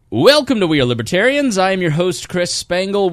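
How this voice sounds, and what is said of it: Loud, fast radio announcer voice. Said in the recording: “you've got to talk louder with more volume. You've got to talk with a higher speed ... radio voice”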